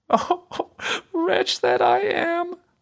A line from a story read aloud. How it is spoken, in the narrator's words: sighed she